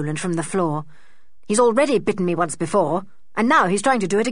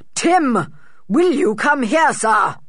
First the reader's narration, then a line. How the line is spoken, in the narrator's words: shouted George's father